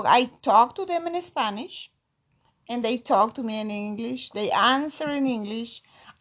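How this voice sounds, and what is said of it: Peruvian Spanish accent in English. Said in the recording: “correcting me all the time, especially my accent... my mom Peruvian”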